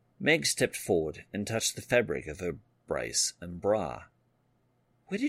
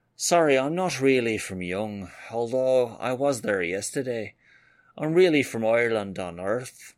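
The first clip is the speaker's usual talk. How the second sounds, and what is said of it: Thick Irish accent. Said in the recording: “She thickened up her accent.”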